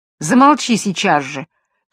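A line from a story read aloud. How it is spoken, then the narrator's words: Shout. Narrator (Russian): крикнула прекрасная Джанет и залилась слезами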